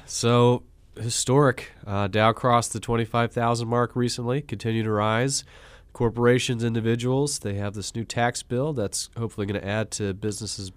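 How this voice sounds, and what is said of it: Sick, rough voice. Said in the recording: “excuse my voice a little bit. I've fallen victim to that winter illness”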